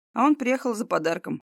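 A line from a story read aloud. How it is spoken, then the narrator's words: Brother chuckling. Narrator (Russian): хохотнул брат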